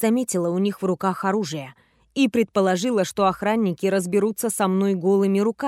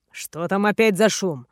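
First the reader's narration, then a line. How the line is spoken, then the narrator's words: Irritated dragon's question. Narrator (Russian): раздраженно уточнил один из драконов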